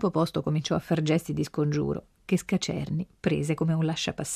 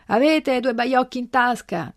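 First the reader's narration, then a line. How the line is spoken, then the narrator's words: Shouted after someone. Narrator (Italian): gridò dietro la guardia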